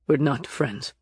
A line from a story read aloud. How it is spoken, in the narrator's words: Nick said sharply